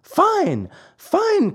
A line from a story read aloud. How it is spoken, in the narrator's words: cried Pinocchio, dancing about with joy